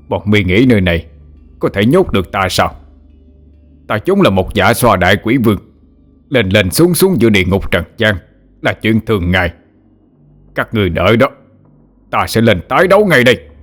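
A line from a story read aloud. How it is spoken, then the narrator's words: Mad roaring. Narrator (Vietnamese): Xích Ma Vương gầm lên điên dại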